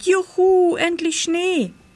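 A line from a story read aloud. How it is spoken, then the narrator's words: Joyful cry. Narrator (German): rief Pitt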